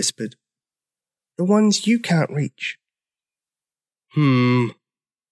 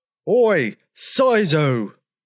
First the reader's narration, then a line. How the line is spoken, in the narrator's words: He roared